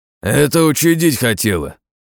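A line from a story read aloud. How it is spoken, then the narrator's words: Growl. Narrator (Russian): рыкнул Борзой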